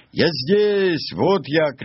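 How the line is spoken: Shouting back. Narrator (Russian): кричал в ответ Нильс

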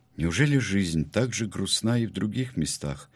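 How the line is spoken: Sad question. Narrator (Russian): печально спросила Арабелла

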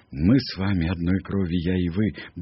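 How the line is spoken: Quick whisper, snake language. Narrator (Russian): быстро шепнул Маугли змеиное слово

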